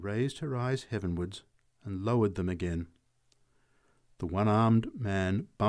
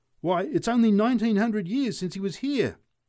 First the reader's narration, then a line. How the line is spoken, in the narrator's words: shouted the drunk